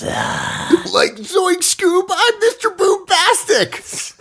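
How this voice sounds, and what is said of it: Shaggy impression. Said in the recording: “That's Shaggy, right? ... He did a great impression”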